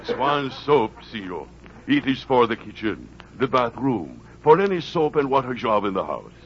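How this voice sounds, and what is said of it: Speaks with a foreign accent. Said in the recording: “This man talks with accent.”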